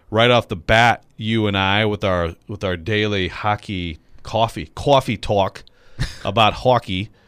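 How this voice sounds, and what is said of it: Attempted New York accent. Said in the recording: “Is that your attempt at a New York accent?”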